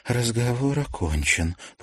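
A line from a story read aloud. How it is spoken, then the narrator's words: Mumbled. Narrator (Russian): пробормотала Василисина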